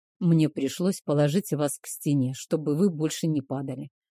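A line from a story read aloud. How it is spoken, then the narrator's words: Sleepy mumble. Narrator (Russian): пробормотал он, не открывая глаз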